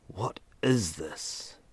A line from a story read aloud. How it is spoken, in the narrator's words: Ethan whispered, his voice betraying the fear sprouting in the pit of his stomach